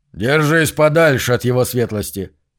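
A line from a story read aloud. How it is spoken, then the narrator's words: Barked. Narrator (Russian): рявкнул Зу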